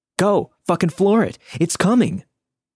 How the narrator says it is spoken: everyone was yelling and screaming

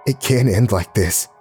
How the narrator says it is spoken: I panted

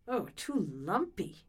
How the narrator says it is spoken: she grumbled

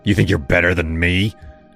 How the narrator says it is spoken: snarled, his voice low and jagged

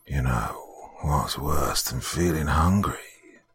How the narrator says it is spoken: said a raspy voice

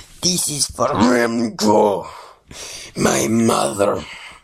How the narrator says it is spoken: said in a low voice of a growling elephant tiger hybrid

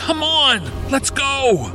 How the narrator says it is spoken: I yelled

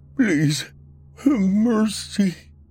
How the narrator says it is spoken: he tried to say, but his voice shook too much for the words to be distinguished

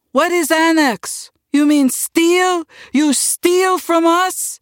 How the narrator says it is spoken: Uncle stood up and shouted

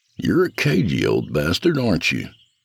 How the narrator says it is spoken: I asked softly

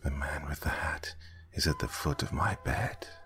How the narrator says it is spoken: he whispered in a stressed hush

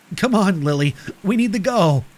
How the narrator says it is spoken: I urged, my voice tinged with urgency

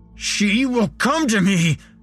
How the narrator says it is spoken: shouted

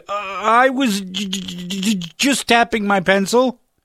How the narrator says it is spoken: stammered

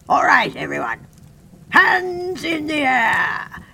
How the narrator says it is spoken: Sir Guy shouted triumphantly

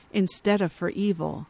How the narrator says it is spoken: he says softly

